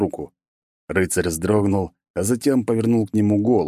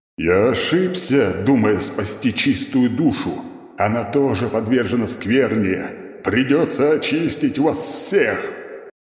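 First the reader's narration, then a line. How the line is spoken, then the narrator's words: Roared, knight. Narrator (Russian): проревел рыцарь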